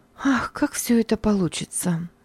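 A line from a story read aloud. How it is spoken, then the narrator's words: Sighing. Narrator (Russian): вздохнула Надя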